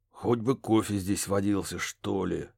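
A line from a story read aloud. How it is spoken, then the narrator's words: Grumbling. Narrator (Russian): пробурчал Барри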